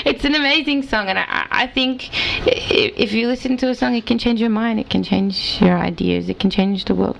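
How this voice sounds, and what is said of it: Australian accent. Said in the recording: “you're from Australia, correct? ... a lot of you are hearing this accent”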